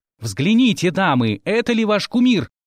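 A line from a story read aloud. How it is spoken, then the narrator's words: Loud orator-like question. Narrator (Russian): громко вопросил эльф, напоминая народного героя на трибуне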